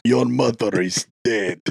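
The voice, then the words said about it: Mock Greek or Russian accent. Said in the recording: “He can do a bad Greek accent, a bad Russian accent. It's all the same accent. ... That was actually pretty decent.”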